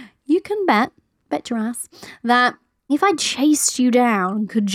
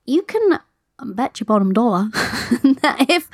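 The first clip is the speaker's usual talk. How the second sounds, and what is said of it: Vague made-up pseudo accent. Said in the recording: “I don't know what that sounded like, some random pseudo accent that I was trying to do”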